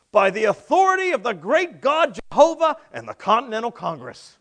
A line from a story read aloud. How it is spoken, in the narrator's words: Ethan Allen yelled back